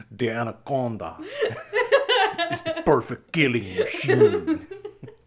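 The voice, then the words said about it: Vague put-on accent. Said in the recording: “probably racist, vague accent”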